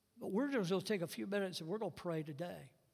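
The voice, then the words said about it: Southern American accent. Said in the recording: “hear somebody talk in Southern accent.”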